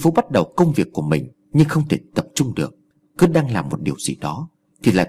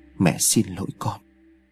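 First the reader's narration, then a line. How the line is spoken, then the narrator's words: Distant muttered apology. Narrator (Vietnamese): miệng lẩm bẩm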